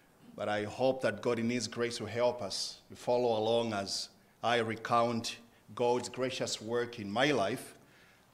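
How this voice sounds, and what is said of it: Zambian-accented English. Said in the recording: “obviously from my accent you can tell I'm not born and bred from here ... I pronounce words differently ... back home in Zambia”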